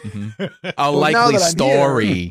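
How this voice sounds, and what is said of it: Put-on Brooklyn accent. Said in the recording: “a little a Brooklyn accent person. That was what I was trying to do anyway.”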